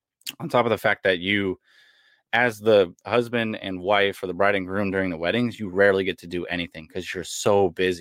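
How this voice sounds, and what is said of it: Hoarse, failing voice. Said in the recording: “sorry, I'm losing my voice right now.”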